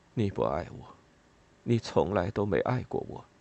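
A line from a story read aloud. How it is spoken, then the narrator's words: Mumbled. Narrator (Chinese): 他嘟囔着说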